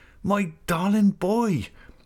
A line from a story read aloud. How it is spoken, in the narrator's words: She cried